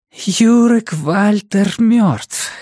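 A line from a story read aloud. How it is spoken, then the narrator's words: Hoarse repetition. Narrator (Russian): хрипло повторила она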